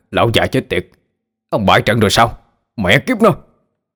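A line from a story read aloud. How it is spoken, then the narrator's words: Angry scolding from inside. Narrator (Vietnamese): tiếng ông Sơn bên trong quát mắng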